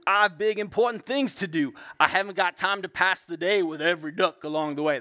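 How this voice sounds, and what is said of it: Gruff dump truck character voice. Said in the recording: “That's usually how I say it for my son, too. ... You got to do the voices when you're reading, right?”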